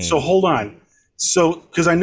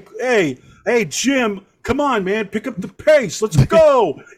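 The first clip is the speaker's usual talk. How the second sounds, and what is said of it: Put-on New York dumbass accent. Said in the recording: “New York like, accent... Dumbass, yeah... general dumbass, like, Philly”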